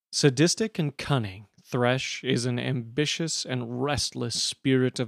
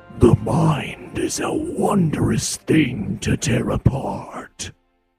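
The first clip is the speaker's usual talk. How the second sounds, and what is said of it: Attempted impression of a character voice. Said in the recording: “my terrible attempt at an impression”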